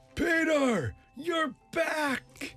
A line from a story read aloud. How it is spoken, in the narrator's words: one boy shouted